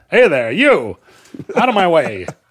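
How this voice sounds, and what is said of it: Put-on mid-Atlantic accent, ranting. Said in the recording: “Ranting homeless person with a mid-Atlantic accent.”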